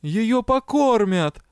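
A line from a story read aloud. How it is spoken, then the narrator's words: Exclaimed. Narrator (Russian): воскликнула леди Тьер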